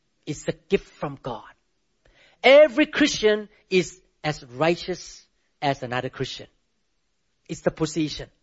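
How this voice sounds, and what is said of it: Non-native English accent. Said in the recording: “I speak English with accent, beautiful accent ... you have to listen carefully on my accent”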